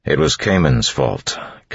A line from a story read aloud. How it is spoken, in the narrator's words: Kelsier said firmly